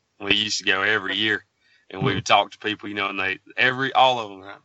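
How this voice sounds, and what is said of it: Southern US accent. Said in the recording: “you guys from the South ... with that accent, it just sounds kind of nice”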